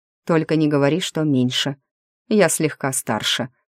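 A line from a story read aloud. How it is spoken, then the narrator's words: Snorting chuckle. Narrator (Russian): хмыкнул Ариас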